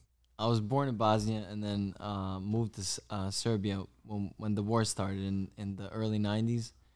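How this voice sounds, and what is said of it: Balkan-accented English. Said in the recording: “You got that accent, bro.”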